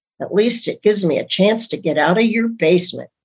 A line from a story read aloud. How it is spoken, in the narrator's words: Emily muttered under her breath